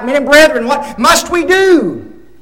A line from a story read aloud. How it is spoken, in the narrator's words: They cried out